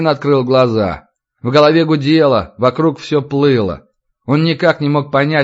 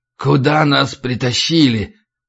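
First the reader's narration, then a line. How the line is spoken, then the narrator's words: Hoarse rasp. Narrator (Russian): прохрипел Разин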